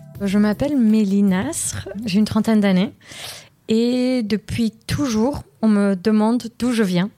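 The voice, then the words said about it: Slight accent in French. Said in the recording (French): “j'ai un petit accent.”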